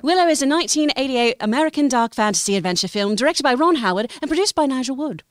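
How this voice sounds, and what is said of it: Put-on UK accent. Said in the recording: “some kind of UK dialect ... I have a couple. ... Wow, that was pretty great.”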